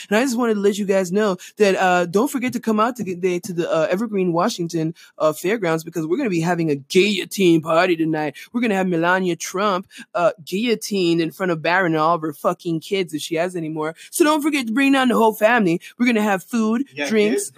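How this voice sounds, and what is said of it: Poor imitation of a radio DJ. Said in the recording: “bad radio jockey impression”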